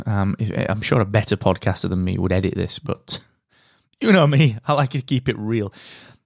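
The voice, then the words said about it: Hoarse, croaky voice. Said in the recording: “I've got a frog in my throat today. I've got just getting over a little bit of a cold”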